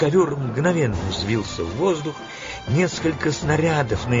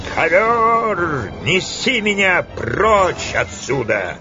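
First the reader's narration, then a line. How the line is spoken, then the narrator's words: Wild scream. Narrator (Russian): она завопила диким голосом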